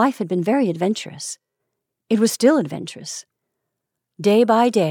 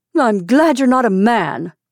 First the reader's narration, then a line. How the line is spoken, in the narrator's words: said sharply